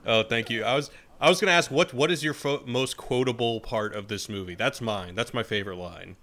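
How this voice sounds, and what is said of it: Usual voice. Nothing is said of it.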